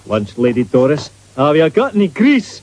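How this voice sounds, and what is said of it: Scottish-accented character voice. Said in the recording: “Red hair and a Scottish accent”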